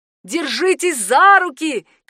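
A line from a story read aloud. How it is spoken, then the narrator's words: Shouting. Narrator (Russian): кричала Хана Аня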